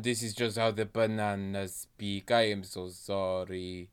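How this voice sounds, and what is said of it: Put-on French accent. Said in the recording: “I think you've been far more focused on this accent ... I've become French and I cannot stop ... I have done a full tour of all European accents”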